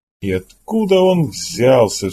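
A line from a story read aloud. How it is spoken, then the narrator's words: Exasperated exclamation. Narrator (Russian): в сердцах воскликнул Джексон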